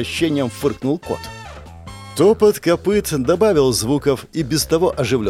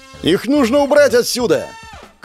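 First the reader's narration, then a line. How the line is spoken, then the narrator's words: Shouted. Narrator (Russian): крикнул наш царь-колдун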